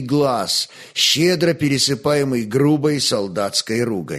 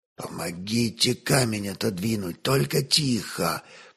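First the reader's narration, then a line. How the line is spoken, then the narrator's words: Whisper. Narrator (Russian): прошептал пастух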